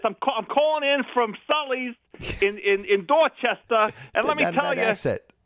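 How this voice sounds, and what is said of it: Put-on New York Bronx accent. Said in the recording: “I don't know what that accent. It sounded like you were from the Bronx.”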